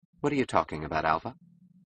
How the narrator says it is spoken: She asked coldly

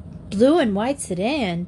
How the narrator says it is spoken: Trixie exclaimed

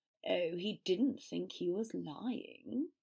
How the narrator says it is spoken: Riddle drawled

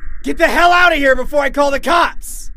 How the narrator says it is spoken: instinctively yelled

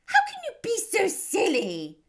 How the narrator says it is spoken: cried her mother

